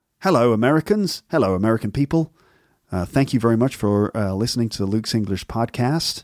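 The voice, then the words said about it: Weird put-on American accent. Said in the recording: “what's this voice he's doing? Is this supposed to be an American accent? ... that's sort of some sort of weird American accent.”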